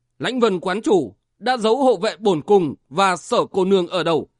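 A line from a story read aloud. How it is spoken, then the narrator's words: Harsh, emphatic voice. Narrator (Vietnamese): gằn giọng nói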